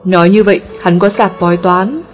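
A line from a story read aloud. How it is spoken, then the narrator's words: Smiling question. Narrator (Vietnamese): Công Tôn mỉm cười, hỏi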